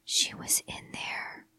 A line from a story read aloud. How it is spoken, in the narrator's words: he whispered